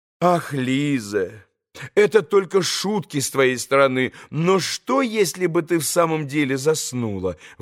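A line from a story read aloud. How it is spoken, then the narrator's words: Exclaiming woman. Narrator (Russian): воскликнула госпожа Хохлакова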